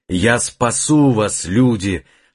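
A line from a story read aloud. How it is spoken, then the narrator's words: Long powerful shout. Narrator (Russian): закричал он протяжно и мощно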